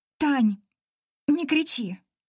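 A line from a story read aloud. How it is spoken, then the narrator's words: Flat, hoarse plea. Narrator (Russian): Прошу невыразительным хриплым голосом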